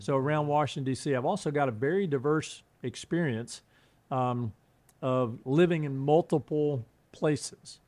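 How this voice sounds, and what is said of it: Southern US accent. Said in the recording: “I've got this Southern accent. I grew up in North Carolina ... but the accent didn't leave.”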